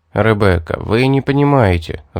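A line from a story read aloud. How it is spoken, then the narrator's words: Sighing. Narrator (Russian): вздохнул я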